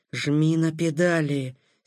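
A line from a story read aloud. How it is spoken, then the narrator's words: Hoarse creaking voice. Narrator (Russian): севшим голосом проскрипел Такэда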